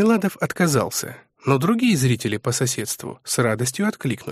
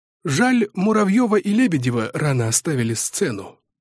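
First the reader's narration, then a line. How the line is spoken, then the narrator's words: Sigh, frail little man. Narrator (Russian): вздохнул тщедушный человечек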